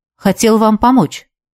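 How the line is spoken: Quiet. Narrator (Russian): негромко произнес он

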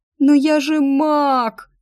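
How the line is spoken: Sobbing. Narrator (Russian): рыдала я

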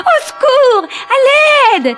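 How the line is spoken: Panicked old woman screaming. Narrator (French): cria la vieille dame prise de panique

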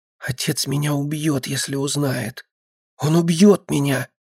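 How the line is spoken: Desperate whisper. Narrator (Russian): В отчаянии зашептала она

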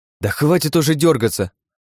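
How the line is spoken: Girl's sharp shout. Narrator (Russian): прикрикнула девушка

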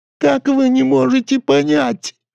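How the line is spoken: Whining small man. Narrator (Russian): хныкал коротышка

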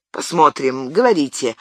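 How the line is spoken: Dry reply. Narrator (Russian): ответил сухо монсеньор

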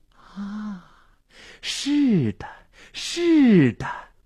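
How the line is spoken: Rapt murmuring to himself. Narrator (Chinese): 心醉神迷的喃喃自语

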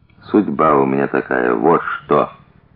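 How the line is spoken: Quiet. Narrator (Russian): Тихо сказал он

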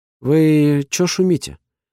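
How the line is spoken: Confused sister asking. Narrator (Russian): растерянно спрашивает сестра

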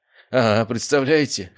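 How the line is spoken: Snorting hum. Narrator (Russian): хмыкнул я

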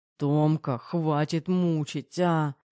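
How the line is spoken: Moaning. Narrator (Russian): застонал Кирилл

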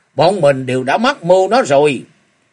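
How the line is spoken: Loud voice. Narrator (Vietnamese): Chung Nam Quái Đạo Như Ngộ lớn tiếng nói

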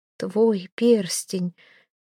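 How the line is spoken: Near moan. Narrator (Russian): Почти простонала Эйра

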